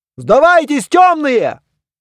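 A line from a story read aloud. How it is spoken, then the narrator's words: Yelling. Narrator (Russian): заорал кто-то из оруженосцев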